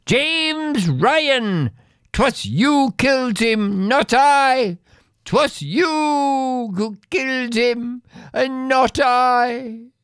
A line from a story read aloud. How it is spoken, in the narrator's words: the last words I heard her scream were